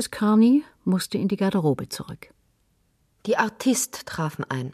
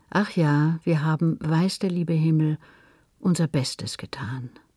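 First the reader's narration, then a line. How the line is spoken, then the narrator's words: Soft sigh. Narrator (German): seufzte sie leise und sagte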